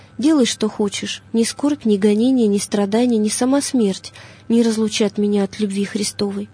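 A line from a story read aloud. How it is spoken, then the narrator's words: Calm reply. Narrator (Russian): Феодор спокойно отвечал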